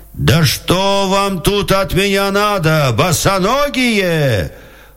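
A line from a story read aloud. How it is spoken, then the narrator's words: Soldier shouting. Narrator (Russian): Солдат закричал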